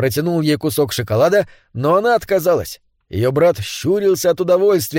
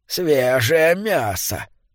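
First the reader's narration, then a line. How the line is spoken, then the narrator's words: Muttering under breath. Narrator (Russian): бормотала она себе под нос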